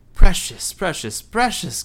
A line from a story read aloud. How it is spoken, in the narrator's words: Gollum cried